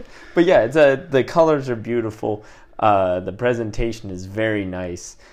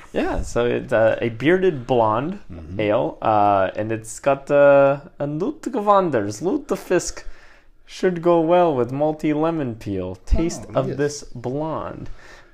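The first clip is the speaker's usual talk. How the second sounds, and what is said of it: Poor Russian-Norwegian put-on accent. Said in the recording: “Russian there. Well done. ... Russian Norwegian. ... My accents aren't very good.”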